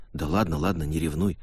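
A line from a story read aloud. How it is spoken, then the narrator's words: Offhand whisper. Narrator (Russian): шепотом бросил Эварха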